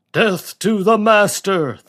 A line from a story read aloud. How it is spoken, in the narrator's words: thundered back the wild climbing horde